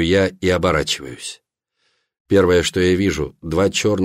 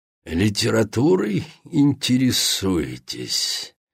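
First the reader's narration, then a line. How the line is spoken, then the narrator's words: Low hoarse flat vampire voice. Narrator (Russian): Низкий и хриплый голос вампира плохо передает интонации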